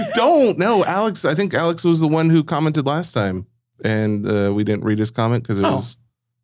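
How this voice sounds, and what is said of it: Usual voice. Nothing is said of it.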